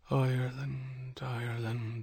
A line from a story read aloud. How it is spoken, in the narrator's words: he whispered